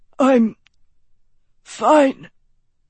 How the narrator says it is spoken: Lance wheezed

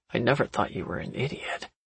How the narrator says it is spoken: he said quietly

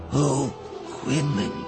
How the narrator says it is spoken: she said brokenly, aching with compassion

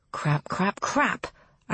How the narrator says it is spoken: I mutter

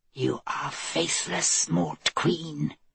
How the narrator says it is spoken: the voice hissed in her ear

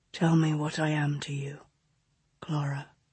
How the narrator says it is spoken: August whispered against her mouth

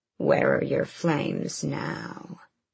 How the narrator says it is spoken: finally stopped their hissy fits long enough to ask

